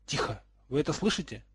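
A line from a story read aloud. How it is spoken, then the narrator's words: Exclamation. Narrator (Russian): воскликнул Гарольд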